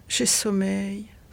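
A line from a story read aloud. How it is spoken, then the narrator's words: Sighed. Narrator (French): soupira-t-elle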